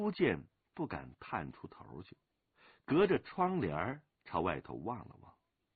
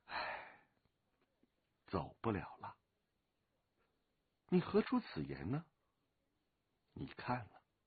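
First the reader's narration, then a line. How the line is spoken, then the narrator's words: Sudden sigh. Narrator (Chinese): 龙八突然叹了口气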